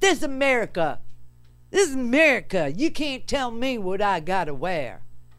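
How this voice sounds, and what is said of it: Put-on Southern American accent. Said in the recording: “I gave a guy from Maryland a southern accent”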